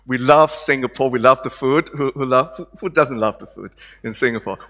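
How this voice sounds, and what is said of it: Hong Kong-born speaker's accent. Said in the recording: “some of you may recognize my accent and the way I look, that I'm not born in Australia. I was born in Hong Kong.”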